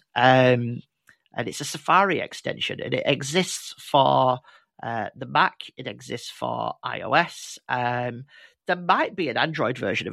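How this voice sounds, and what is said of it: Strong northern English accent. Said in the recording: “my super northern accent”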